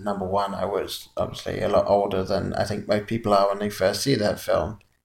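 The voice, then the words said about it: Authentic English accent. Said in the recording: “he speaks with an authentic so well. English accent.”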